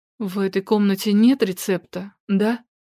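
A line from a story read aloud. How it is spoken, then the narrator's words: Trembling voice question. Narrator (Russian): дрожащим голосом спросила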